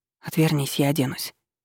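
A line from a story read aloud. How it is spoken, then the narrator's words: Forced out with difficulty. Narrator (Russian): смогла только выдавить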